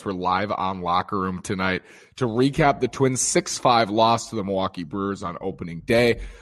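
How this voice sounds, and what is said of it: Slightly strained, hoarse voice. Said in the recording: “You can tell my voice is a little strained. I was really yelling”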